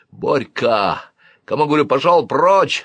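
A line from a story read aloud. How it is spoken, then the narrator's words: Bellowing. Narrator (Russian): заорал дядь Толь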